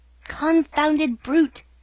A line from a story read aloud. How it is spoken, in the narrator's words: cried the unhorsed horseman, just as ashamed as a cavalry officer degraded to a foot soldier